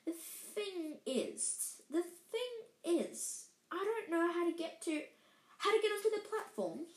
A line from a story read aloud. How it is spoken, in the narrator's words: she said kindly